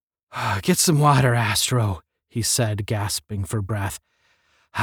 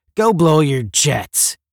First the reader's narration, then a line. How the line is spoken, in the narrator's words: he snarled